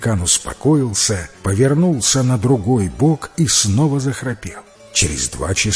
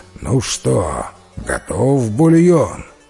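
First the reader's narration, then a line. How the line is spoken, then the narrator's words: Sleepy giant, grunting. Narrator (Russian): великан проснулся, покряхтел и сонным голосом спросил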